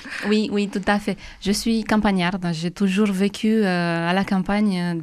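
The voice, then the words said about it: Romanian accent with rolling r's. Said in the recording (French): “Vous êtes roumaine, hein, d'où ce joli accent qui roule.”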